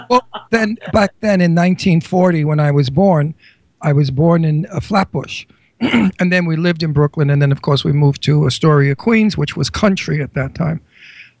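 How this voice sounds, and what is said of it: New York accent. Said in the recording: “they still talk like this, too ... I do have an accent, but it's not as bad as the Brooklynites”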